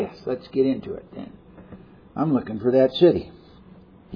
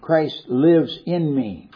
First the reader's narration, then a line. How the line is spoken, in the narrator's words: Paul says